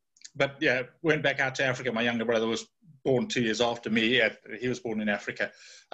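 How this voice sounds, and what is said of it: Cockney London accent. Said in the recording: “I was born a Cockney, as you can tell from the accent”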